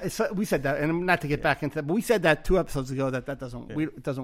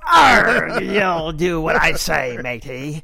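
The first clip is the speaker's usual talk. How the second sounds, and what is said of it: Pirate voice. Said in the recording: “doing a pirate voice”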